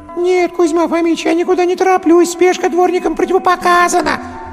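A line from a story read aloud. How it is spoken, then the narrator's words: Despairing howl. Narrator (Russian): взвыл в отчаянии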